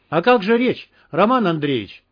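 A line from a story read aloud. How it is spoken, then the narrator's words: Cheerful call after. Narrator (Russian): весело крикнула вслед ему Марина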